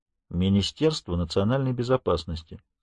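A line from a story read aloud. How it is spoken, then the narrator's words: Calm. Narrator (Russian): спокойно произносит Дан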